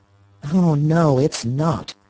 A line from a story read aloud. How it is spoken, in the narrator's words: her son groaned